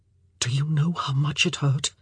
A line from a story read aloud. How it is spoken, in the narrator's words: He whispered